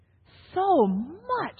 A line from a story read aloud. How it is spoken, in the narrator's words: Naomi exclaimed